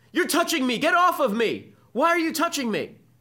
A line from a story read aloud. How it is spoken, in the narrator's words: all the students begin yelling at him